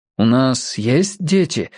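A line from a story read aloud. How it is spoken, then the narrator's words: Sad wistful question. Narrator (Russian): спросил он ее, думая о том, как печально, что он даже этого не помнит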